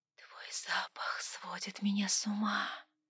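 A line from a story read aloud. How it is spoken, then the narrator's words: Whispered. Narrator (Russian): прошептала она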